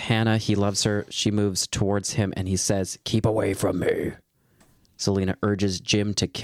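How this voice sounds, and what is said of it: Usual voice. Nothing is said of it.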